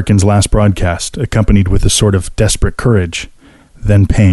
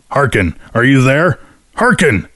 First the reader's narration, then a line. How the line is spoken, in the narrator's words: The chief's shouts